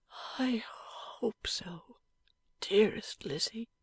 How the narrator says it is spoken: said Eugene wistfully, and yet somewhat whimsically

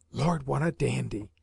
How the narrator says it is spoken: he added under his breath, yet not so quietly but that I failed to hear the words

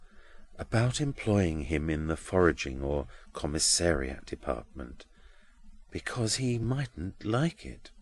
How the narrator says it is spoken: Grewgious in a lower tone after his clerk's departure

